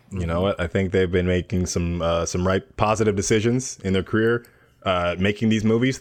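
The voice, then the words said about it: Imitates a hockey player giving interviews. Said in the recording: “That was my hockey player impression doing interviews.”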